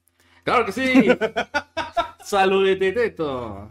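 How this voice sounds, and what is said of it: Football commentator voice. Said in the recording (Spanish): “voz de narrador de fútbol”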